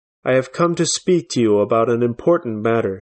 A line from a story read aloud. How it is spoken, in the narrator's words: said coldly